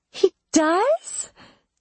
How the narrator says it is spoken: she asked, her voice an octave higher

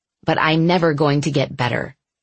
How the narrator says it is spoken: I said bitterly

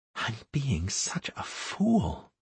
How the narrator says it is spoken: Anastaria whispering

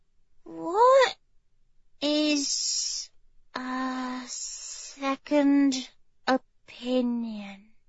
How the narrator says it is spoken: She asked the question slowly, as if she were carefully choosing each word

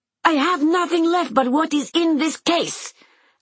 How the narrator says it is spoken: Anna screams, making him the subject of her undiluted rage

